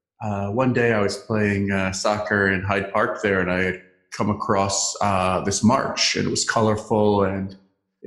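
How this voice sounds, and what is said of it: American accent. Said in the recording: “I'm American by birth, as you can hear from my accent.”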